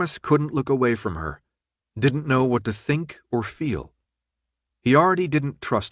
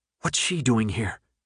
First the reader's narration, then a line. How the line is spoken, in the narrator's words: whispered, the spite evident in her voice